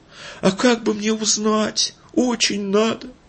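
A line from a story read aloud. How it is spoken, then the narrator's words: Whiny, plaintive question. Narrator (Russian): Имон подбавил в голос плаксивости и жалобно спросил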